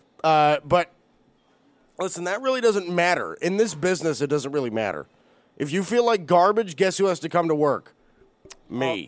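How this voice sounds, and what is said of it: Sick, congested, sniffly voice. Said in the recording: “I am very sick. I'm pretty sure you can hear it in my voice ... I'm sniffly”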